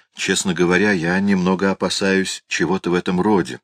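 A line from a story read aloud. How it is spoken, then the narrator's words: Calm. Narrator (Russian): спокойно сказал Мариот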